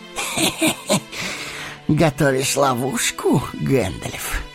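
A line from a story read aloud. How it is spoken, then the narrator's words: Hoarse laugh. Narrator (Russian): хрипло засмеялся Саруман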